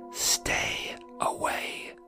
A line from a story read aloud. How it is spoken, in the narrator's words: leaning in closer to me and whispering